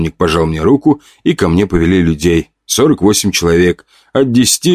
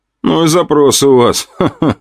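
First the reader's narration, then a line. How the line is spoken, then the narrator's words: Short laugh. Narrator (Russian): хохотнул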